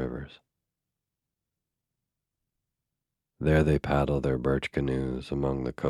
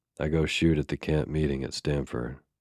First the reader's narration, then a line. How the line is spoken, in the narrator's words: replied the Indian